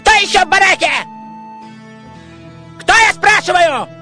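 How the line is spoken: Shouting. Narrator (Russian): кричал надзиратель

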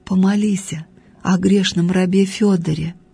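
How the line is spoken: Unseen voice whispering. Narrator (Russian): невидимый голос прошептал в ухо старушке

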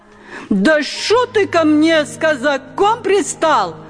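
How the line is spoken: Shouted, losing patience. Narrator (Russian): крикнула Лизавета, выходя из терпения

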